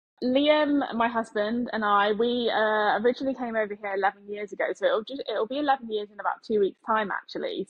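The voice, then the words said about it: British accent. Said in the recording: “you're from the UK, we can tell by your accent”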